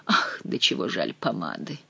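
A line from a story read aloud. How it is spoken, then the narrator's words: Sighing. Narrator (Russian): вздохнул Шико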